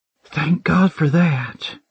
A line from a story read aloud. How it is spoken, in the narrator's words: she breathed out